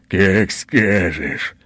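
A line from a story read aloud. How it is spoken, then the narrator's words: Growling speech. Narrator (Russian): сквозь рычание говорит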